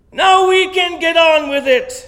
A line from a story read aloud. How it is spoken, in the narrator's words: shouted someone